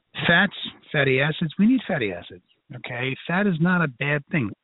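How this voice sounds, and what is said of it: Brooklyn accent. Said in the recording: “my Brooklyn accent's coming out tonight”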